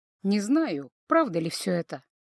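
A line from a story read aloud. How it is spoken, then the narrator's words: Sad voice. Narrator (Russian): грустным голосом заканчивает эльф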